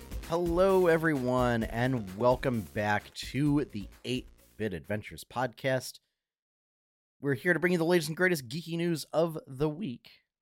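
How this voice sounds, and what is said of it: Husky voice with a cold. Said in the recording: “if I sound awful. I'm feeling a little under the weather ... if I sound a little husky ... Just fighting some seasonal cold type stuff”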